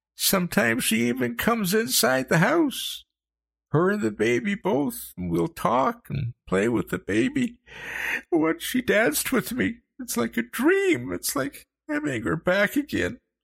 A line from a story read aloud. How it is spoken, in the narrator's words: he sobbed, his head hanging